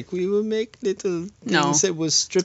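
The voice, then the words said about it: Bad put-on German accent. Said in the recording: “I was all German ... I was doing bad Swiss accents”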